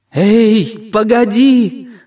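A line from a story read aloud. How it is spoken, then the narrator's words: Shouting upward. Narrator (Russian): закричала Жанна, задрав голову кверху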